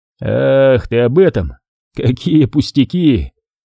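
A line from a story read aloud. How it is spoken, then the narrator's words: Laughing. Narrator (Russian): рассмеялся Вадим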